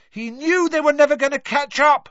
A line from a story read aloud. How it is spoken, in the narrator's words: Harry shouted back over all the noise